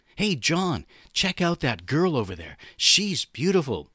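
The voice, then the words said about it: Put-on young man's voice. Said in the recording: “to do my young voice.”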